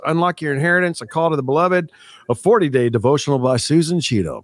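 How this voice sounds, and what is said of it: Cool radio announcer voice. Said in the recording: “My cool radio voice.”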